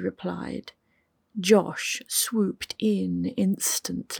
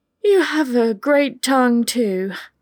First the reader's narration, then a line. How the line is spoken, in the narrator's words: Pippa said breathlessly